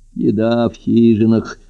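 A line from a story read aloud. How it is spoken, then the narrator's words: Sleepy. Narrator (Russian): сонно сказал Быкоборов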